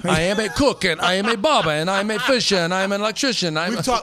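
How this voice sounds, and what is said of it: Put-on accent. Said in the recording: “We've talked about your accents.”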